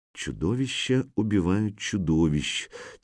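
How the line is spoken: Quiet. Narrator (Russian): тихо произносит Ольга

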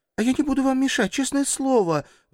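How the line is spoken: Pleading. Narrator (Russian): взмолилась она

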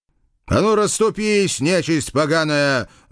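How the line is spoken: Roaring. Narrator (Russian): взревел я

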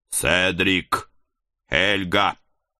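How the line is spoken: Loud shout. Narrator (Russian): Громко прокричал я

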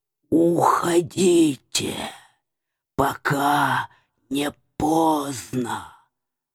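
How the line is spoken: Halting, hissing whisper. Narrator (Russian): посоветовал динозаврик прерывистым, шипящим шепотом

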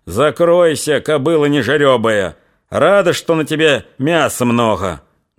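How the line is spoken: Loud, stifling amusement. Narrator (Russian): громко сказал он, тщетно пытаясь сохранить на лице суровое выражение

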